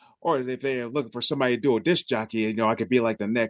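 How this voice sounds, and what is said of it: Usual voice. Nothing is said of it.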